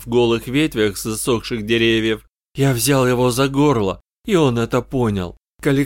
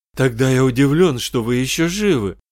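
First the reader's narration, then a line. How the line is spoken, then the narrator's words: Exclaiming. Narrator (Russian): воскликнул Эдди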